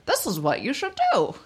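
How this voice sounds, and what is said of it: Funny put-on doctor voice. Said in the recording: “This is my funny voice that I use sometimes. Anyway, it's not what all doctors sound like.”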